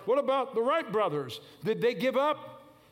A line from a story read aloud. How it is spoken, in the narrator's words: He barked